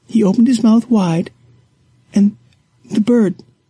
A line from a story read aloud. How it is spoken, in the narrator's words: she sobs